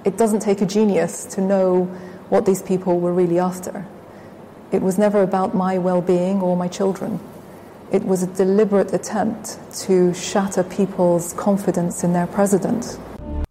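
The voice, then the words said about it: Posh upper-class British accent. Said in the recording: “she sounds like she's a member of the royal family, the British royal family ... very British, very, very upper class accent ... very posh”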